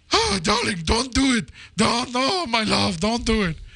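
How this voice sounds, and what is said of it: Imitates another person's voice. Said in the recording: “that's my Anthony Quinn impression ... It's not bad, I have to say.”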